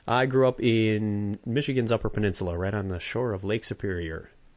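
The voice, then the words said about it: Michigan Upper Peninsula accent. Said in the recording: “explains your accent ... You want the Uper accent there, eh?”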